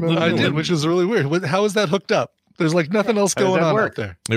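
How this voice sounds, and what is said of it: Usual voice. Nothing is said of it.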